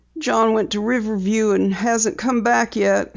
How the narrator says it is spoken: said brokenly

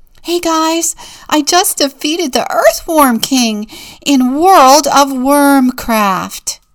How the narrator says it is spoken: Nerdy Birdy announces excitedly

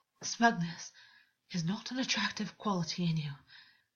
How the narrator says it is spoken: Augus said, his voice rough and unstable

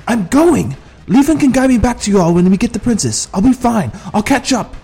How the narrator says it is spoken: yelled

